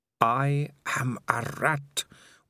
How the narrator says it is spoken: whispered Dangerous Beans

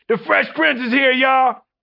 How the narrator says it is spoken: Quincy yells out

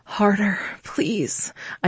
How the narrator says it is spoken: begged, my breath hitching

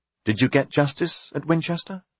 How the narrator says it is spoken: Aliena asked

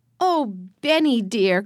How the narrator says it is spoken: cried Alice

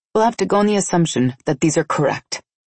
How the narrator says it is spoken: I said in a businesslike tone

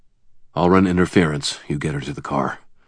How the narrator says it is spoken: I muttered to Asher

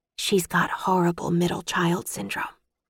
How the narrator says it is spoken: Maggie whispered to me

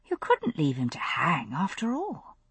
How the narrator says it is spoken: I said

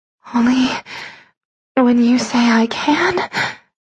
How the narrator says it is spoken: I gasped

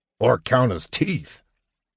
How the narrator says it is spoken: Flint grumbled

